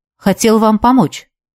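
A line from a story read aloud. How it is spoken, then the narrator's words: Quiet. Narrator (Russian): негромко произнес он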